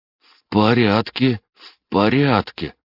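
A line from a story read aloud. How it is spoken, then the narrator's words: Strained, forced out. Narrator (Russian): выдавил Дима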